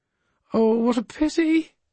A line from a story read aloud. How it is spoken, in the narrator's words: she cried